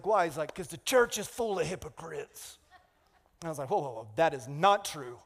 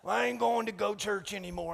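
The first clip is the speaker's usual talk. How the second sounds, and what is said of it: Put-on folksy accent. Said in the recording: “That's my go-to accent”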